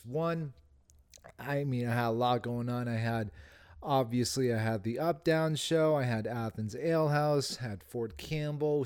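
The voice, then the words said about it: Tired-sounding voice. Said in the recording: “I'm tired, as you can clearly hear in my voice”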